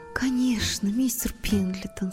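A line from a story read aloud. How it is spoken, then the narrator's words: Whispered. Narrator (Russian): шепнула Поллианна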